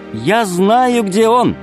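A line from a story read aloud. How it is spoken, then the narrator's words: Girl's shout. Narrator (Russian): крикнула Алиса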